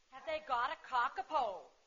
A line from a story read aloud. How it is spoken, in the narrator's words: we both suddenly called out